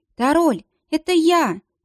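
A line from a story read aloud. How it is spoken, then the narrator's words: Exclamation. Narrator (Russian): воскликнула Анита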